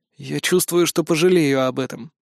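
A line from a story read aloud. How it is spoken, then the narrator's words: Sigh. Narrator (Russian): вздохнул я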